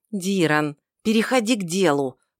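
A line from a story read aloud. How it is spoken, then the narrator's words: Hissing werewolf. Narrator (Russian): прошипел оборотень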